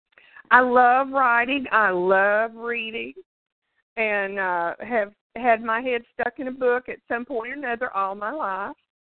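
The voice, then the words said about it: Speaks with a drawl. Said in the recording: “I love your drawl.”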